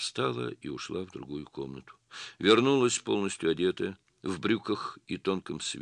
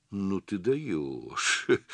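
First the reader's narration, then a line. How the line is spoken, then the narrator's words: Smirking drawl. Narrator (Russian): с усмешкой протянул он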